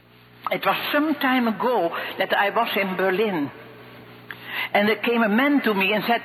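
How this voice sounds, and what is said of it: Thick Dutch accent. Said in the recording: “She has a thick Dutch accent”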